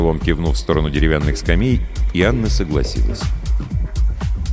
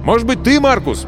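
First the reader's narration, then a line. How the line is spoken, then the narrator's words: Shouted. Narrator (Russian): крикнул он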